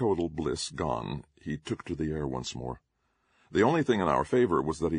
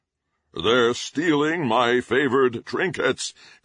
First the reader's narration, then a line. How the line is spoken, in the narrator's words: roared